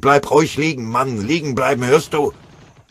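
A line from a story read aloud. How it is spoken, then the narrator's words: Harsh terrible bellow. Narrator (German): brüllte einer, furchtbar anzuhören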